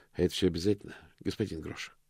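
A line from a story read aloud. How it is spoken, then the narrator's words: Sigh. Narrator (Russian): вздохнул мокрец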